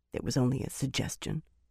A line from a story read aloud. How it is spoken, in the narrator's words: Birgitta muttered weakly